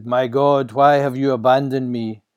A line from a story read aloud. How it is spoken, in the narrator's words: As the end came, with one last breath, he shouted